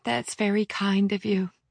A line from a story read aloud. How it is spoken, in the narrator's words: she said, her voice low and unnaturally slow